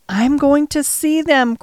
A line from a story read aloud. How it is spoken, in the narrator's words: cried Colin